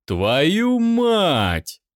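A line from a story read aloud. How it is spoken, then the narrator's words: Drawn-out drawl. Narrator (Russian): протянул он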